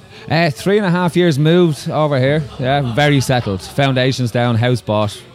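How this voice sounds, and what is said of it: Mild Dublin Irish accent. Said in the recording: “what's that accent there I hear? ... Very proud Dubliner. ... it's been mellowed out by friends from outside of Dublin, so it's a bit more neutral these days.”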